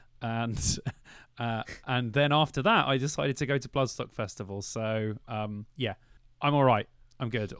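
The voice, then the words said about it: Sore-throat voice cracking up and down. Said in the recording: “I have a strep throat, my voice sounds really weird at the moment. Like, it keeps going up and down like a weird teenage boy.”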